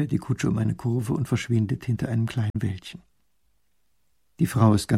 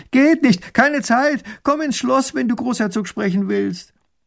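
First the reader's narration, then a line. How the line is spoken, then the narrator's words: Calling back. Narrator (German): Erich ruft zurück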